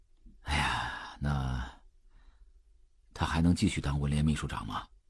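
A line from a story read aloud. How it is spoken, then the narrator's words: Sighing question. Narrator (Chinese): 周秉义叹了一口气，又问道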